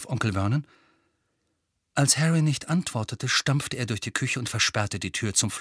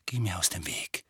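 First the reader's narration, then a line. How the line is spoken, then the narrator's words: Quiet. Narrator (German): sagte Harry leise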